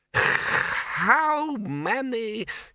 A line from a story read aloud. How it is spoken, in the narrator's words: He stopped and began to wheeze